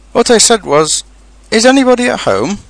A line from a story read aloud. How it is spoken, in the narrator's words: called out Pooh very loudly